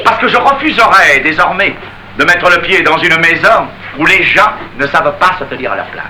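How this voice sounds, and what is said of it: Put-on Parisian French accent. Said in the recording (French): “Vous avez beau prendre l'accent parisien”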